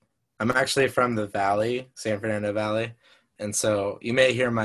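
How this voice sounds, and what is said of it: Usual voice. Nothing is said of it.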